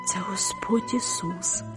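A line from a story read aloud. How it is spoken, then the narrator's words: Soft whisper. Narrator (Ukrainian): тихо прошепотіла я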